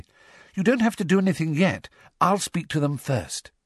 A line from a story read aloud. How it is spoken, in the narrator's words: she added quickly